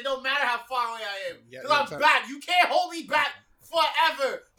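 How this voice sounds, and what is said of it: Loud yelling delivery. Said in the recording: “I'm yelling ... all that yelling, I can hear that 3,000 miles away, bro. So I'm gonna need to calm that down”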